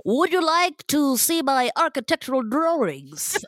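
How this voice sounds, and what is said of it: Imagined Frank Lloyd Wright impression. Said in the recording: “I thought you were trying to do a Frank Lloyd Wright impression ... Is what I imagine him speaking like.”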